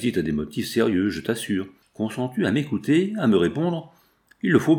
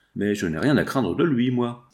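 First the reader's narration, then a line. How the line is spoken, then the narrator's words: Plain. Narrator (French): dit-il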